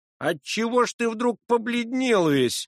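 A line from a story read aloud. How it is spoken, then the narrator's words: Blustering shout. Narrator (Russian): закричал один из гостей, старавшийся всегда выказывать себя храбрецом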